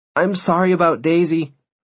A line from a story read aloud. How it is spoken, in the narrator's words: I blurted out